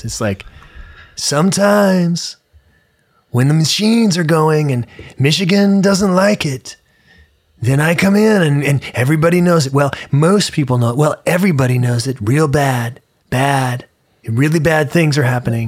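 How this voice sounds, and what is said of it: Imitates another person's voice. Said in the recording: “your Trump impression ... I like to do really good impersonations”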